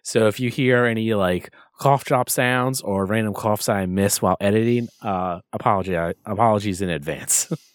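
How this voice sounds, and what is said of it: Hoarse, half-lost voice. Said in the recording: “if you cannot tell my voice, yes, yet. I'm still recovering from that. My voice is halfway shot. It's better than what it was doing.”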